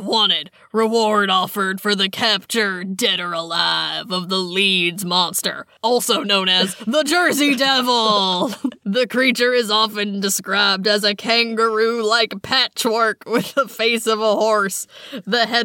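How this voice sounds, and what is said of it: Gruff Sam Elliott impression. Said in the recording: “my gruff, like, Sam Elliott voice ... Do your Sam Elliott voice.”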